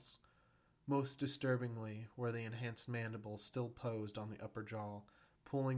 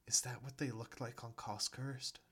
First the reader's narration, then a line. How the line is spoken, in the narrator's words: Jenna whispered